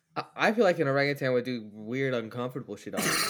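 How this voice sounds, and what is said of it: Speaking with a noticeable accent. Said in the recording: “You said that with such a fucking accent”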